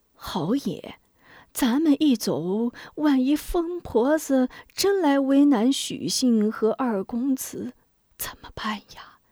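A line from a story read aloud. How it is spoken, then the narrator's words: Woeful whisper. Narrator (Chinese): 许人哭丧着脸 悄声道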